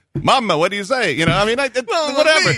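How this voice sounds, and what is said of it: Fake Italian accent. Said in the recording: “I can do the fake Italian voice, too”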